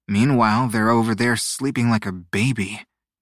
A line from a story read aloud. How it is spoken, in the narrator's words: grumbled